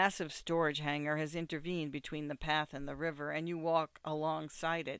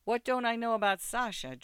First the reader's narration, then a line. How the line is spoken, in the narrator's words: Drew asks in his usual friendly tone